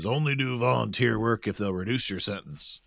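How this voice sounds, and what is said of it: Impression of Chet Hunter. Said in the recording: “That's a nice ... impersonating Chet Hunter. I like it.”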